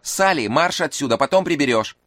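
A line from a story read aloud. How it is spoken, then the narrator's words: Angry shout. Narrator (Russian): сердито крикнула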